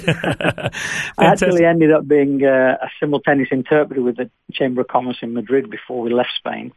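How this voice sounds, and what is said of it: Manchester English accent. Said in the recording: “I've got an accent, a Manchester accent in English ... I've got a rubbish Manchester accent in English”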